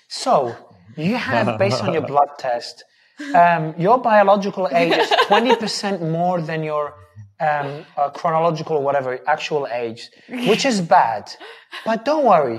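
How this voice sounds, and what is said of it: Soothing voice imitating another person. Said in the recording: “He follows up with a soothing voice ... Sinclair impersonation.”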